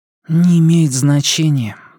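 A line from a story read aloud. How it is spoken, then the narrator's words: Sigh. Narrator (Russian): вздохнул Джейк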